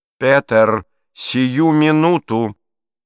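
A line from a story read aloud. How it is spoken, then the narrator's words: Demanding. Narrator (Russian): потребовала Беатрис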